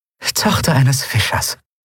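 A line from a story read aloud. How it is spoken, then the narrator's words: Dry, wry. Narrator (German): Andriel grinste trocken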